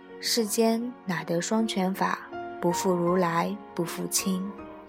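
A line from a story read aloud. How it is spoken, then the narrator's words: Murmured recitation. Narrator (Chinese): 喃喃地念道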